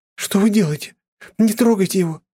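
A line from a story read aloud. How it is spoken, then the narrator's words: Defensive shriek. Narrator (Russian): взвизгнула Алиса, кратко встав на защиту своего обидчика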